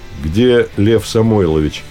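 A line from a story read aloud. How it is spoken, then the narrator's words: Plain. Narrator (Russian): спросил Одинцов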